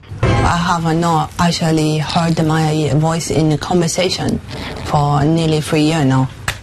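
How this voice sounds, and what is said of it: Chinese-sounding accent. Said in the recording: “She comes out with a Chinese accent.”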